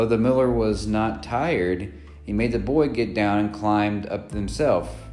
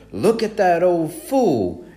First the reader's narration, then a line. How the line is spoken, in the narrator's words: exclaimed